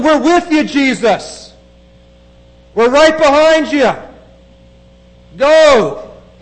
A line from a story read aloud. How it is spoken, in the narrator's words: the shouts sound very different